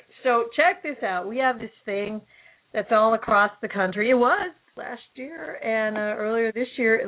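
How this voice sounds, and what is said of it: Hoarse, strained voice. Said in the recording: “I've lost my voice?”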